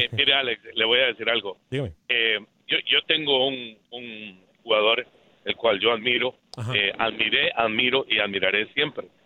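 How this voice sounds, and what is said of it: Radio announcer-like voice. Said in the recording (Spanish): “tiene voz de locutor”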